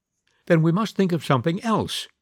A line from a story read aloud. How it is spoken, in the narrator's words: he went on cheerfully